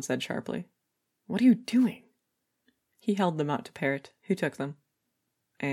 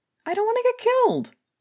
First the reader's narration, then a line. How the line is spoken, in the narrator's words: he yelped